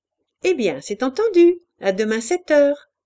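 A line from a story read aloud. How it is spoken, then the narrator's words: Cheerful. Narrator (French): dit-elle gaiement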